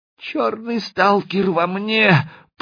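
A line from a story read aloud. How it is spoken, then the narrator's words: Small man's babble. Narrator (Russian): пролепетал коротышка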